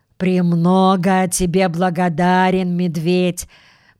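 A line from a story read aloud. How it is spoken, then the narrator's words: Deep booming voice. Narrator (Russian): пробасил он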